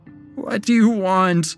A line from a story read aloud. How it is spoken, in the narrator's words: Ben sobbed to the ground